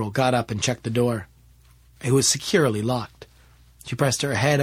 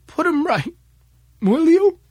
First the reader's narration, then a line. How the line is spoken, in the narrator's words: begged Mary